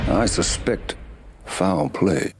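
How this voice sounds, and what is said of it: Southern American accent. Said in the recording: “doing a Southern accent”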